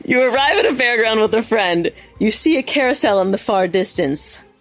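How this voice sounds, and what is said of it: Australian accent. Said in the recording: “That was solid Australian, that was. It was great.”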